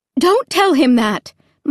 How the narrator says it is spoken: Mom cried sharply

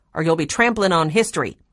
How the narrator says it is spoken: she barked

